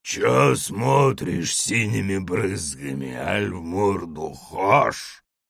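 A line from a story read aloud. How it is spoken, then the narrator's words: Bleary man's bass growl. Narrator (Russian): Какой-то мужик с затуманенным взором прорычал басом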